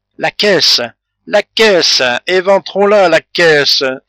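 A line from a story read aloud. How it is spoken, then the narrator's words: Wild impatient cry. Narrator (French): s'écria Calebasse avec une sauvage impatience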